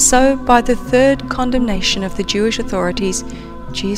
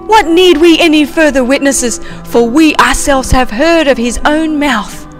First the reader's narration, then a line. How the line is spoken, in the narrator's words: They cried out